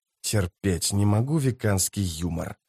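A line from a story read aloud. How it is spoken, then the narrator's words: Whispered. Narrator (Russian): прошептал он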